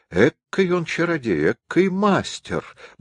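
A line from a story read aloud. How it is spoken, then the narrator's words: Old man muttering, walking. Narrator (Russian): бормотал старик на ходу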